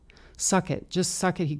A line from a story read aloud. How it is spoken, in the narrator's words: he growled